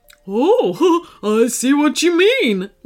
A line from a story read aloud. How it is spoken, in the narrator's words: laughed Phoebe